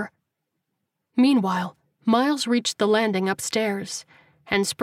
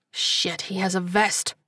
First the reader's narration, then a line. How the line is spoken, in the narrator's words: he muttered to himself